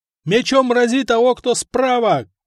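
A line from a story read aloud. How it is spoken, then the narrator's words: Shouted battle command. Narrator (Russian): кричали десятники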